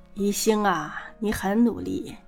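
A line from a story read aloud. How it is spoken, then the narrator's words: Sighing. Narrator (Chinese): 方妈妈叹了口气，说道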